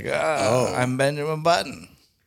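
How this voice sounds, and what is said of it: Little old man character voice. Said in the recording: “just this little old man... my Benjamin Button impression”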